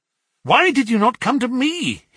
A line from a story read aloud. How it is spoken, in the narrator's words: he cried